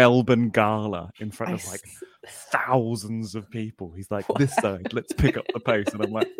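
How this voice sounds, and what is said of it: Usual voice. Nothing is said of it.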